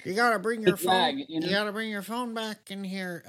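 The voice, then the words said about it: Rough Wallace Shawn impression. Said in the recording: “I can't do his voice... you almost had it there at the beginning, but then it kind of really faded”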